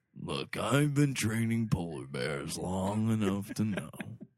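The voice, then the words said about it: Imitates another person's voice. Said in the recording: “That might be my favorite impression. This is my Mike impression.”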